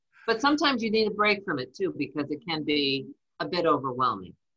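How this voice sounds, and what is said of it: Slight New Jersey accent. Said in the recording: “I just heard the Jersey accent in there, just right there, just a little bit.”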